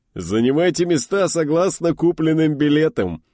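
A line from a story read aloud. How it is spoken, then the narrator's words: Giggling. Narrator (Russian): хихикнул Рахимов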